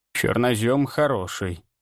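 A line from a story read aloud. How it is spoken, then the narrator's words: Pleased muttering. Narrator (Russian): довольно пробормотала она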